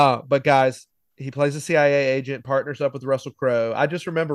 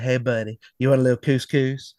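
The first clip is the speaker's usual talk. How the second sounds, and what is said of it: Imitated accent of another person. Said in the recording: “Russell Crowe has this accent. ... he's got this accent.”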